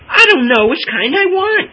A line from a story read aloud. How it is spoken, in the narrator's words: cried Madge, in a moment of wild abandon